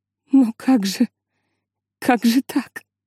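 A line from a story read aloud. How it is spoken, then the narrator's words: Sobbing. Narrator (Russian): рыдала миссис Кларк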